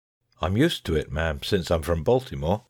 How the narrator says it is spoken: I said

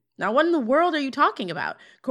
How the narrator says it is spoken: Corey yells

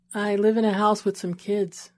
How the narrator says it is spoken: she said in a low voice

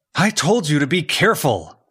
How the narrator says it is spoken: Zed shouted

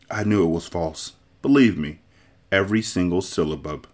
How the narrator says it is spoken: only whispered

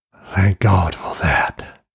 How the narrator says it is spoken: whispered the crawling man

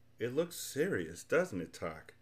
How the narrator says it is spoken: said Milo very sadly

